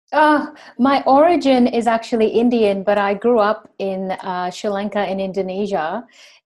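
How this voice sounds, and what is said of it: Mixed American, Australian, British accent. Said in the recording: “my accent used to be totally American, and now it's quite Aussie ... Some have got an American twang, some sound Australian, some sound quite British actually too ... it's a mixed salad”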